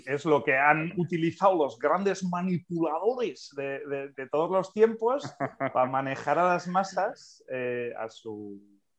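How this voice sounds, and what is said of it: Grandiloquent, pompous Catalan accent. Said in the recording (Spanish): “cuando hablas en plan dictador te sale acento catalán... te pones grandilocuente... Grandilocuente, sí, sí... Cuando te subes a la tarima te sale el acento catalán... es un acento, tío, muy... Engolado.”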